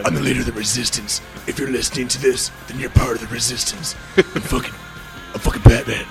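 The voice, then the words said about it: Raspy imitated voice. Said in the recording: “it was the same raspy voice ... He's just, like, smoking Camel Straights all day long.”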